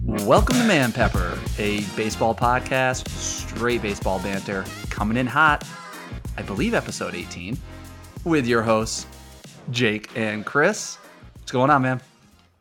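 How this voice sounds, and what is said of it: Hoarse voice. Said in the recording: “fighting a little cold, so hopefully my hoarse voice doesn't crack on me”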